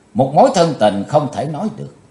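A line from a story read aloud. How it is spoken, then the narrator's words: Cold reply. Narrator (Vietnamese): Chí Tôn lạnh lùng đáp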